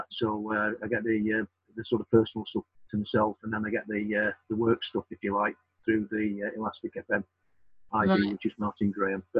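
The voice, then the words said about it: Sheffield English accent. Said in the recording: “you speak with a delightful accent ... I'm born and bred in Sheffield ... there's no TH sound in Sheffield”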